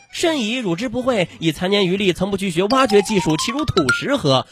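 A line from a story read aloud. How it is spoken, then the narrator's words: Laughing, dismissive. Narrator (Chinese): 何须智叟，笑而止之曰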